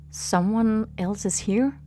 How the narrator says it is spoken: Sung-Hoon said in a low voice

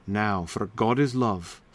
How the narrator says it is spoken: sighed Sir Launcelot

